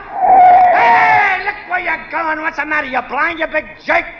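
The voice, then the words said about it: Strong Brooklyn accent. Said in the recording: “talking with a Brooklyn accent ... you still talk like a mug”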